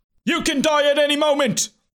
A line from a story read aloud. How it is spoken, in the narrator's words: bellowed an older student